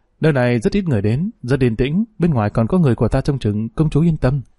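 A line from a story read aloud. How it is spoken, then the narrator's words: Smiling, reassuring. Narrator (Vietnamese): Dương Lăng mỉm cười nói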